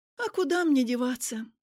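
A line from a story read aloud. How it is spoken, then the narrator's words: Sighing. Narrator (Russian): Я вздохнула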